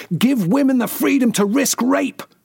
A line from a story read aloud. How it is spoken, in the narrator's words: Paglia, who identifies as a lesbian, banged her tiny fist against the podium and shouted